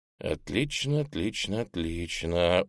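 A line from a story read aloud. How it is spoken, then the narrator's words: Muttered. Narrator (Russian): буркнул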